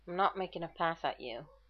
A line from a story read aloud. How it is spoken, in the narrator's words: Shepherd mumbled